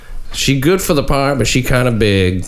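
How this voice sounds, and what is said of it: Put-on accent reading a quote. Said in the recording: “That's a pretty good accent, right? ... Oh, yeah, I believed it, yeah.”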